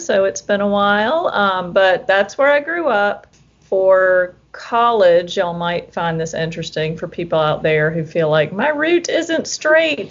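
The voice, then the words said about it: Mild South Carolina Southern accent. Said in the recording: “you might hear from my accent, born and raised in South Carolina. However, if you know anyone who's currently from South Carolina, their accents are much stronger than mine”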